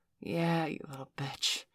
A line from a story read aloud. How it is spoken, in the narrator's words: Valerie sighed